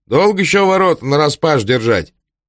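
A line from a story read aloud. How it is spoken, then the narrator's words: Shouting watchman. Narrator (Russian): сторож не крикнул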